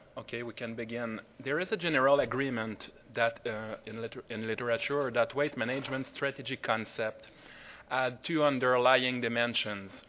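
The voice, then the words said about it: Strong French accent. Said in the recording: “my big French accent”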